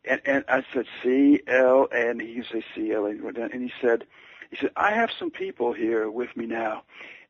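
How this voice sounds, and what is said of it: Choked up, emotional voice. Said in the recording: “I'm getting a little choked up here, as I always do when I think about this”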